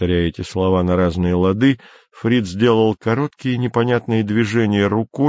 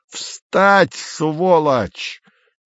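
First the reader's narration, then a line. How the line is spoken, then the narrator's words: Sudden full-throated yell. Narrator (Russian): неожиданно заорал Фриц во все горло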